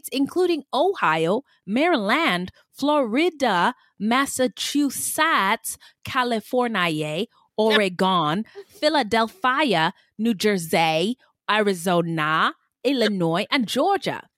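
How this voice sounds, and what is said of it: Made-up theatrical accent. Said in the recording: “I don't know why I said it like that... What is that accent?... It's like a Catherine O'Hare on Schitt's Creek... Like the accent is like, yeah, just made up.”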